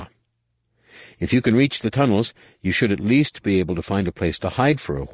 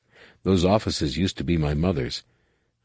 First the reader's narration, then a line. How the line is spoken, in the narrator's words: Jason said dryly